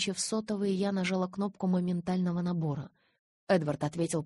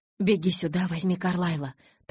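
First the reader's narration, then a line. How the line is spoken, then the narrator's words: Rapid, barely intelligible chatter. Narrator (Russian): тараторила я так, что Джейкоб хорошо, если половину разбирал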